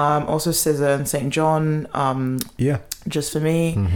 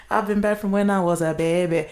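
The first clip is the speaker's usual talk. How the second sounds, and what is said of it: Poorly imitated accent. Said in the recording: “that was a terrible accent”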